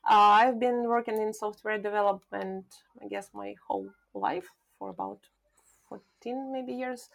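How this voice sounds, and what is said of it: Ukrainian-accented English. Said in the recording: “I live in Argentina, but I'm originally from Ukraine. That's why I don't have Spanish accent.”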